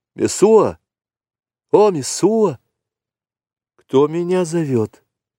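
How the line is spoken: Trembling voice. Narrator (Russian): спросила женщина дрожащим голосом

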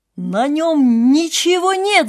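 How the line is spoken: Whole crowd shouting. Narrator (Russian): закричал наконец весь народ

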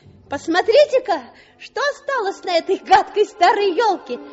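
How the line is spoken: Shout. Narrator (Russian): крикнул он

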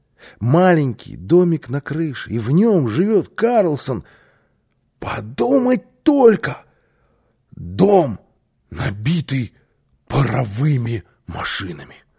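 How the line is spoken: Excited child. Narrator (Russian): воскликнул малыш

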